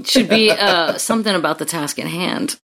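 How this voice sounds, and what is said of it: Sensual, smooth radio voice. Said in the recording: “That was pretty sensual the way ... just threw that out there... That was a radio voice right there... totally has a radio voice.”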